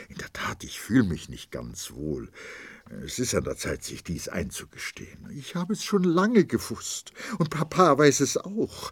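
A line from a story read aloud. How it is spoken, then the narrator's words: Stammering, suppressing sobs. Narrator (German): stammelte sie und versuchte, ihr Schluchzen zu unterdrücken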